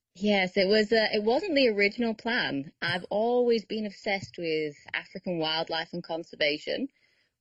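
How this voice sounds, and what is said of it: Slight Manchester English accent. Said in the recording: “you had a bit of an accent. You are from Manchester”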